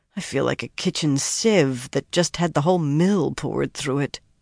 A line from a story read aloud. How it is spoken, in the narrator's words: murmured